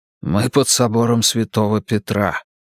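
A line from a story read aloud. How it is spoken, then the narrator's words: Whisper. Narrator (Russian): прошептал отец де Соя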